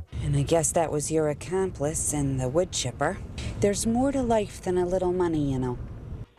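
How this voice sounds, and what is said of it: Midwestern Minnesota accent. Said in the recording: “Got that Midwestern accent ... Midwestern accent. I would say Minnesota.”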